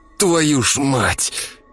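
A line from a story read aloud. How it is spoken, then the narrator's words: Hissed. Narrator (Russian): прошипел я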